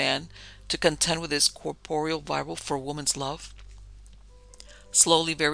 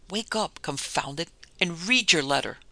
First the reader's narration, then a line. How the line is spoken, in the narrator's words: In a frenzy of impatience, I exclaimed